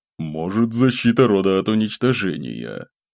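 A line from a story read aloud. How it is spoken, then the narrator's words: Thoughtful mutter. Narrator (Russian): Пробормотал глава ордена, задумчиво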